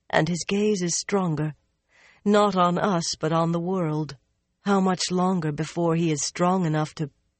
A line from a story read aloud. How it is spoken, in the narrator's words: she sighed